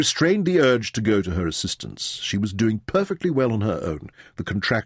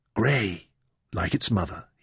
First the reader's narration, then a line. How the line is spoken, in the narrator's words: whispered with pleasure